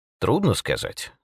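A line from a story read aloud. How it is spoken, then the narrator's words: Calm. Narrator (Russian): спокойно ответил отец Браун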